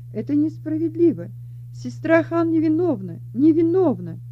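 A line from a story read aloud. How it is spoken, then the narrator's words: Indignant shouting. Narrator (Russian): Она, прильнув к маленькому решетчатому окошку, возмущенно кричала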